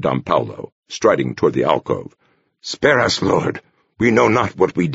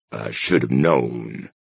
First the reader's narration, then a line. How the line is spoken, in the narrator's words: the scholar muttered to the world at large